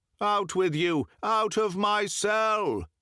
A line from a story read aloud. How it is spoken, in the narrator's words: cried